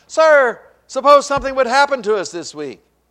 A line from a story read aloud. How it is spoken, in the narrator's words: they called out